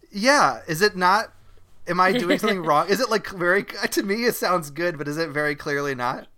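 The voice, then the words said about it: Australian accent. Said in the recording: “they immediately went to the Aussie accent? ... We can barely understand you. All people are like, God, is he trying to do an American accent?”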